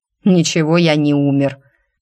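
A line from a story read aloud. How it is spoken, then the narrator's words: Elf's snort. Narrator (Russian): фыркнул эльф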